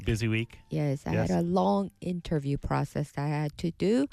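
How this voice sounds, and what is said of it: Slightly scratchy voice. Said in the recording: “my voice is little scratchy ... It seems a little bit, yeah.”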